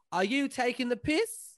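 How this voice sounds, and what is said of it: Put-on Australian accent. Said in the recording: “That was a really great Australian accent you just did there.”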